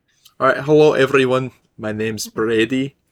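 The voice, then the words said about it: Put-on Scottish accent. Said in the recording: “I don't know how to say my own name with a Scottish accent ... a character who somehow knows how to do a Scottish accent ... now I'm stuck talking like this”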